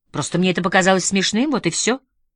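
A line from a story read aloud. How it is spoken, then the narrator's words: Irritated. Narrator (Russian): раздраженно сказала Элинор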